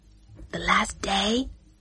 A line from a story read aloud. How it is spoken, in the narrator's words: whispered